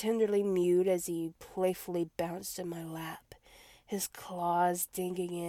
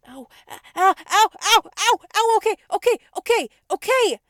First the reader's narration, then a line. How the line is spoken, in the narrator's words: I screeched as I pulled his claws out of my shoulders